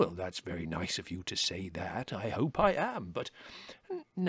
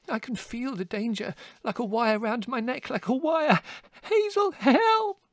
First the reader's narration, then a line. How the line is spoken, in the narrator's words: He squealed